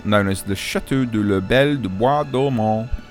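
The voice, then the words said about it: Put-on French accent. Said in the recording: “That's my best French accent coming out again.”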